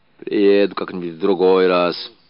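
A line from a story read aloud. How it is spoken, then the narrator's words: Muffled old man. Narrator (Russian): глухо проговорил старик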